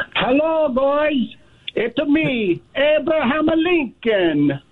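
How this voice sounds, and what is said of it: Confusing mix of put-on accents. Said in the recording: “I've heard like four different accents... I can't determine what accent this is.”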